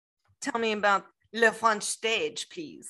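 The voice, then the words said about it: Really horrible put-on French accent. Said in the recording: “my really horrible French accent”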